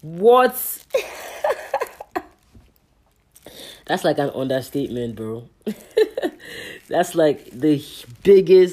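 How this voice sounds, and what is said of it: Nigerian accent. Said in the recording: “I had to switch back to my Nigerian accent for that one.”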